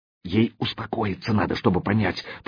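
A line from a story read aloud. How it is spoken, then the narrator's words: Whisper. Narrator (Russian): прошептал порученец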